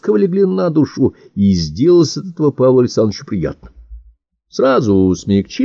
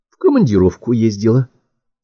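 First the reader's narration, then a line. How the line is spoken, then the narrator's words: Calm. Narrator (Russian): спокойно ответила служебная жена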